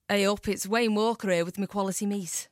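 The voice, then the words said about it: Attempted Stoke accent, sounds too Scouse. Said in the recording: “here's my impression ... Oh, no, that's too Scouse, isn't it? ... Stoke is a very, ... Very difficult accent to do”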